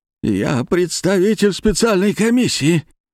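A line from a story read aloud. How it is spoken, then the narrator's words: Pitiful whimper after slap. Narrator (Russian): жалобно проскулил, когда я дал ему пощечину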